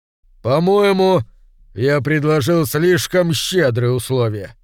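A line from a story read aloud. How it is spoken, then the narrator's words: Wry snort. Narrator (Russian): хмыкнул он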